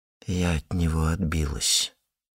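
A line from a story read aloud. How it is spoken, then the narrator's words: Quiet. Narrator (Russian): тихо сказала она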